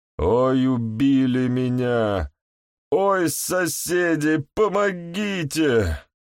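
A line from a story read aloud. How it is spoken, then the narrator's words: Hoarse wheeze. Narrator (Russian): прохрипел Максим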